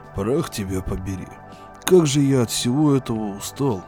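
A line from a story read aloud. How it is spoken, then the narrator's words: Grumbling. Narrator (Russian): пробурчал Декс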